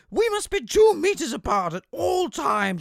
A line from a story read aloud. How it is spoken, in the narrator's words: she wails